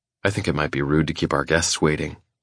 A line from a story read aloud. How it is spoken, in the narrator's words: I murmur